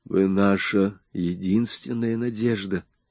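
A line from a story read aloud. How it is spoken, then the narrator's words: Sudden low voice. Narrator (Russian): сказал он внезапно низким голосом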